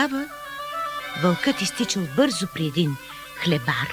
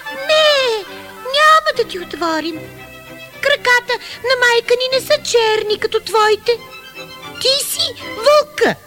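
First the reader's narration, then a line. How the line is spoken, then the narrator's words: Young goats shouting. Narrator (Bulgarian): козлетата извикали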